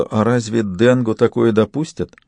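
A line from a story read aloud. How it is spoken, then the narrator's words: Very timid question. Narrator (Russian): очень робко спросила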